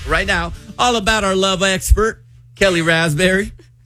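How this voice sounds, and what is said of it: Put-on country accent. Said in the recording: “I didn't mean to do an accent. ... Read in a country accent.”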